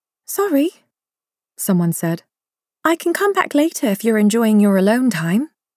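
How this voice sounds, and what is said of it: Tight, pointed upper-class accent. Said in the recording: “the tight, pointed accent that went with leafy avenues and elegant townhouses and lace gloves. That was an Azatani voice.”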